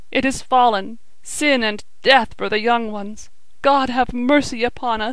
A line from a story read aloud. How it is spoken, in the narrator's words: he sobbed